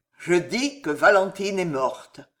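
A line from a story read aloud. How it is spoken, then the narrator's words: Solemn, terrible voice. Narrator (French): répondit d'Avrigny d'une voix solennelle et terrible dans sa solennité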